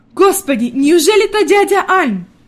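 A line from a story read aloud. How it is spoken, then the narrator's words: Grandmother's pleasantly surprised exclamation. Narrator (Russian): воскликнула бабушка в приятном удивлении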